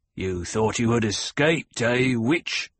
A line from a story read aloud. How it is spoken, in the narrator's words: Gurney snarled